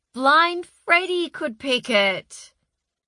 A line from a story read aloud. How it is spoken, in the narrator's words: she shouted at the sky